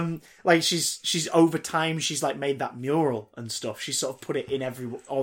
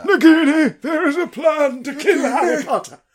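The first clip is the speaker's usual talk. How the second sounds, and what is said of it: Voldemort-like villain voice. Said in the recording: “I sound like Voldemort when I'm trying to do an impression of Red.”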